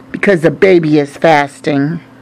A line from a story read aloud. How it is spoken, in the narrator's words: looked at me coldly and said